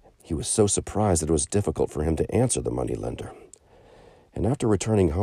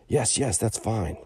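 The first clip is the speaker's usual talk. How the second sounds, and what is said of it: Weak, faint voice. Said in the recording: “in a weak voice.”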